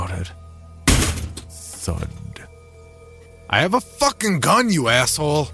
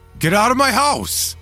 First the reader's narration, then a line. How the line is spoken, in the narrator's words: I shouted